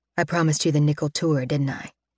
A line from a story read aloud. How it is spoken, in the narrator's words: he asks softly